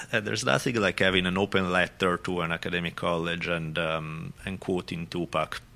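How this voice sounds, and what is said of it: French accent. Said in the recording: “It sounds so beautiful with your accent, though... who's that guy who sounds like GSP?... It's French.”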